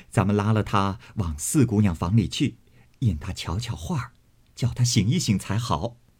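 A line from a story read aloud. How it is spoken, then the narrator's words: Laughing. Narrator (Chinese): 李纨笑道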